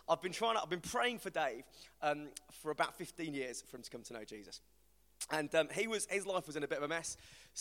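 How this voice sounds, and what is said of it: West Midlands English accent. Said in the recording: “my West Midlands accent”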